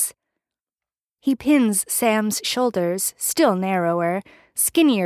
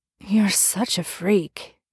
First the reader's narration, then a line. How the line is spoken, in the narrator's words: Dean says, but his voice has gone thready and low